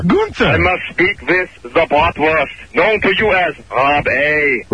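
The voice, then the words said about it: Bad fake German accent. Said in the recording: “It's like some bad German accent.”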